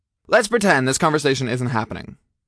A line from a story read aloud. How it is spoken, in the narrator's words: I said quickly